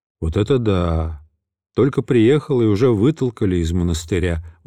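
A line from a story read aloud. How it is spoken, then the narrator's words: Indignant, dejected. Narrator (Russian): возмущался я, уныло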